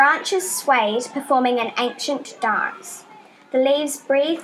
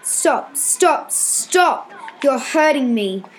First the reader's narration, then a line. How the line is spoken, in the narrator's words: snapped the hand banister